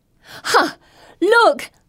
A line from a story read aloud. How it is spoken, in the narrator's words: shriek